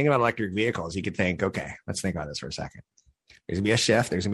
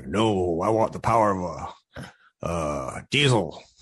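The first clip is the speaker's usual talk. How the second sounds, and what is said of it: Put-on Southern US accent. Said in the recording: “My Southern impression is being chastised by my Northern California impression.”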